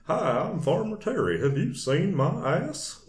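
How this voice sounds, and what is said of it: Hank Hill-style cartoon drawl. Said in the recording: “that's the way I did the voice ... I don't know if I'm doing it so good right now, but it sounded a lot like ... Hank Hill”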